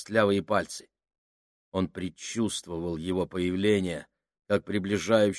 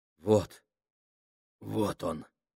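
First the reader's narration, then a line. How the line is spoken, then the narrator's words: Very hoarse, rasping voice. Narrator (Russian): проговорил Минхаус таким хриплым голосом, словно прополоскал горло толченым стеклом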